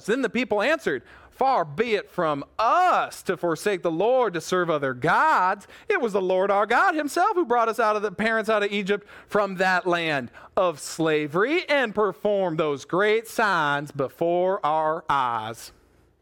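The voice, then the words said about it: Put-on southern accent. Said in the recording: “it sounds better if I say it with a southern accent”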